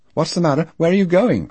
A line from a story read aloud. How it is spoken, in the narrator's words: cried Lo from the porch